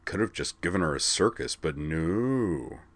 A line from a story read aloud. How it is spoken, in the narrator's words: muttered Zoner with a mock put-upon air